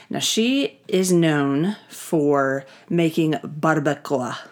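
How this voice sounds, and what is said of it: Spanish-accented pronunciation of a word. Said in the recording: “I say it like that because I like to use my accent.”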